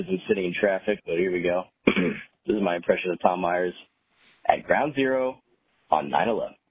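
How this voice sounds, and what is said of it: Usual voice. Nothing is said of it.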